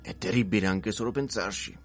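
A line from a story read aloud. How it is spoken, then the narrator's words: Exclaimed. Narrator (Italian): esclamò Buck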